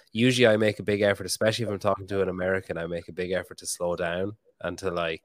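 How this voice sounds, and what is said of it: Strong accent, slightly congested voice. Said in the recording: “my accent is going strong today... I actually have a bit of a head cold and I'm tired”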